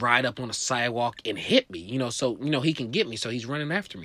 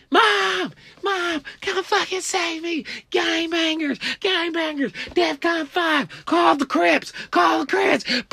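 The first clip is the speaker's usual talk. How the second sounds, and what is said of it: Screaming. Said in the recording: “Stop screaming. Stop screaming. Why are you screaming?”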